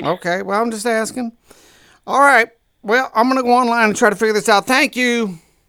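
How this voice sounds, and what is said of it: Imperfect put-on Southern accent. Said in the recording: “my southern accent, it needs work. I'm working on it. It's a work in progress.”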